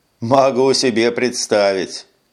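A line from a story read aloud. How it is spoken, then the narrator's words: Laughing. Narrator (Russian): рассмеялся Эш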